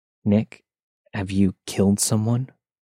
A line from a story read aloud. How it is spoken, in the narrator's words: I asked him in the most calm tone that I could